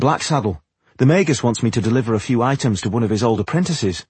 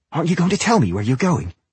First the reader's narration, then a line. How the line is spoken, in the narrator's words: She asked impatiently